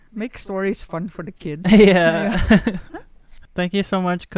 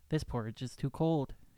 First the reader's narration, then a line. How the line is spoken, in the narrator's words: she said